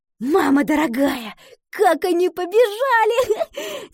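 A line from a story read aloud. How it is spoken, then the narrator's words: Laughing. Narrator (Russian): засмеялась Гретхен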